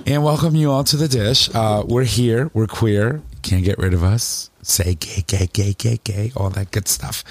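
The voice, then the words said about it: Hoarse voice. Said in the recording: “I am all messed up right now. I don't know if you guys can hear it in my voice, but I'm just like so hoarse”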